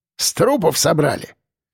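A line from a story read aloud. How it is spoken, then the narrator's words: Snorting remark. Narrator (Russian): хмыкнул Ефим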